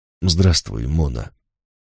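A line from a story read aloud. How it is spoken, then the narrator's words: Quiet male voice. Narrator (Russian): тихо произнес он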